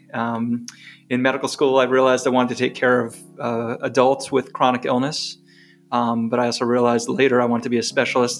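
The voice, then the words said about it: New York accent. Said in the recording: “as you can tell, I'm not from North Carolina by my accent. I grew up in New York.”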